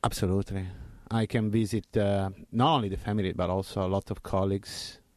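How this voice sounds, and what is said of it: Italian accent. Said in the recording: “where are you from in Italy? ... Milano. ... You have not lost that accent at all.”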